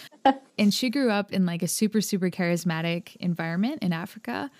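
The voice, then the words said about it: American accent. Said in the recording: “I grew up here in America, if you can tell by my accent.”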